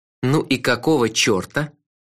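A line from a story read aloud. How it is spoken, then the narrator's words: Calm, dignified question. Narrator (Russian): Спокойно, с достоинством спросил я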